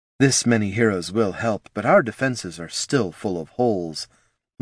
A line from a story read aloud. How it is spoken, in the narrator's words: muttered General Gergen